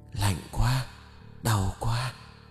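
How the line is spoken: Trembling voice. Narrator (Vietnamese): giọng nói run rẩy kia lại xuất hiện

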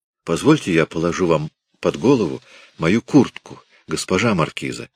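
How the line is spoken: Plain. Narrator (Russian): сказал он

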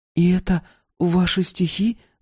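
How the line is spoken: Timid question. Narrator (Russian): робко спрашивала Маша

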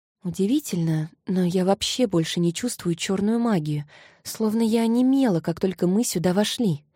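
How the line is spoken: Whisper. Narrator (Russian): прошептала она

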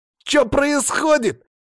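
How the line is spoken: Shouted. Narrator (Russian): закричал Саня

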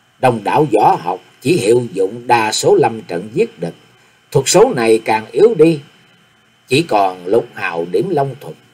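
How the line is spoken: Woman muttering. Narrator (Vietnamese): Nàng nói lẩm bẩm

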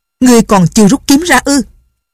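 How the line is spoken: Sharp shout, old man. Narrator (Vietnamese): Lão liền quát

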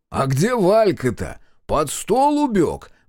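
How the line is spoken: Drunken guffaw. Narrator (Russian): пьяно хохотнул Макар Саныч

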